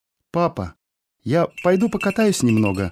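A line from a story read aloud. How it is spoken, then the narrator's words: Timid. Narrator (Russian): робко говорил я отцу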